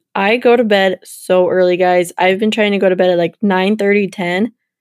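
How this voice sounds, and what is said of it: Raspy voice. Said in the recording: “my voice is getting super raspy”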